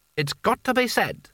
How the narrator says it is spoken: said Creosote, waving his hands irritably

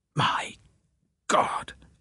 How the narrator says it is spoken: I muttered

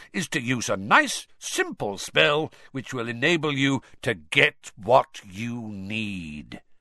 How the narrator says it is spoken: said Moody, loudly interrupting him

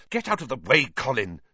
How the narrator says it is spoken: said Harry angrily

